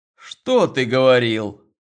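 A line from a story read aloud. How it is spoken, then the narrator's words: Angry objection. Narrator (Russian): Сердито возражал Роман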